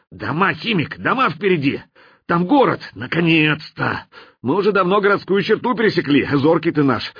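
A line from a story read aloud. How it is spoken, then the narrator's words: Quick exclamation. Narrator (Russian): тут же воскликнул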